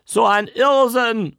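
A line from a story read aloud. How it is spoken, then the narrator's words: Shout. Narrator (German): rief eine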